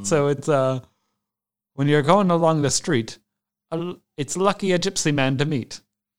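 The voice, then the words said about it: Put-on Irish accent. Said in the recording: “a little Irish accent”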